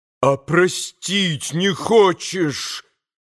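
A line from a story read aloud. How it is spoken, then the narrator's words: Frantic reproachful shout. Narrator (Russian): прокричал Митя Грушеньке с безумным упреком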